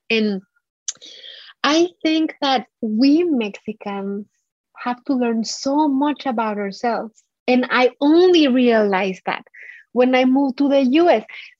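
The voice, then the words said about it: Heavy accent. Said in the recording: “I still have a heavy accent”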